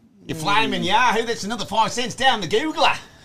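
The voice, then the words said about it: Put-on Australian accent. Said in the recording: “You guys can do Aussie, right? ... That's pretty good.”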